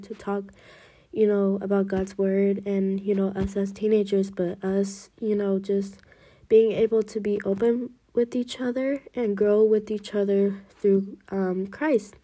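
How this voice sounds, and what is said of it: Congested, blocked-nose voice. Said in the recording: “how my voice is sounding right now. If I do sound a little weird or different, that's because my nose is plugged right now... So I'm really congested”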